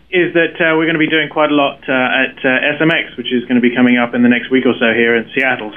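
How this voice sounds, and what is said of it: British accent. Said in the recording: “probably the easiest to tell with a British accent”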